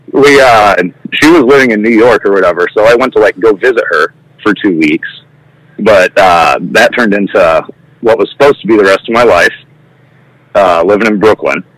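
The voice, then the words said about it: Thick Midwestern American accent. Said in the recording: “I'm from the Midwest. I'm sure you can tell by my thick accent.”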